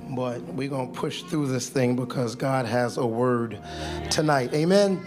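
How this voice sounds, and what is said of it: Hoarse, strained voice. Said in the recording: “I lost my voice.”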